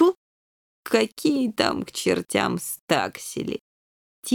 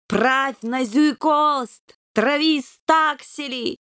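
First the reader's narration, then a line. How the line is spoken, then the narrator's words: Bellowing through cupped paws. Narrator (Russian): сложив лапы рупором, заорал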